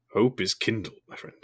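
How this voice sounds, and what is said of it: Gandalf impression. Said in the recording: “I can't do that accent any justice, I'm afraid. Or that voice. ... Leave the Gandalf impression still at home.”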